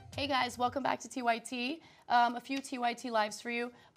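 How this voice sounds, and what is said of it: Hoarse, raspy voice. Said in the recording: “my voice is the way it is. People think I'm like smoking during the breaks... I got laryngitis... She had no voice last week.”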